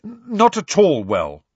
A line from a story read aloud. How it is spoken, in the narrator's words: said Harry firmly